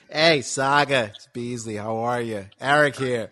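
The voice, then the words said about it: Raspy imitation of another person's voice. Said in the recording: “I'll put together the Beasley voice ... does your voice only sound that damn raspy”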